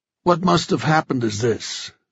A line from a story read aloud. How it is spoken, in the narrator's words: Joe said in a heavy voice